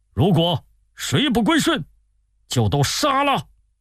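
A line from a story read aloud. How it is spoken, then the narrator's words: Shouting. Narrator (Chinese): 高定大喊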